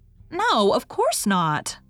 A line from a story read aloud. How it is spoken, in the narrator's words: said Una indignantly